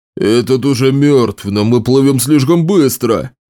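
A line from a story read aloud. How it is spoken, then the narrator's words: Moan. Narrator (Russian): простонал другой нарукаец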